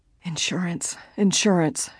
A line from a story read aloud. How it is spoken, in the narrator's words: she said hoarsely